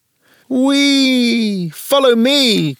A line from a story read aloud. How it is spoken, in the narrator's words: cried Gigi